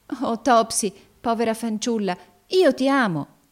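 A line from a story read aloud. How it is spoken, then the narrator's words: Sudden burst of tenderness. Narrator (Italian): esclamò Evangelina con subitaneo scoppio di tenerezza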